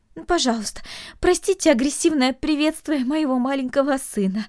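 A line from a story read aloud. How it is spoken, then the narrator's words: Mother's pleading. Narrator (Russian): взмолилась мать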